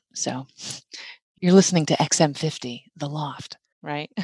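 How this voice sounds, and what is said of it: Sultry radio DJ voice. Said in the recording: “my DJ voice is what's different ... testing out all kinds of really sexy voices, like just now”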